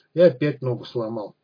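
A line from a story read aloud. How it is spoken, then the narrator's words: Gloomy complaint. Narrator (Russian): пожаловался он мрачно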